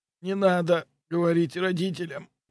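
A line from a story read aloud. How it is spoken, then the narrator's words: Weak voice. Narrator (Russian): слабым голосом произнес он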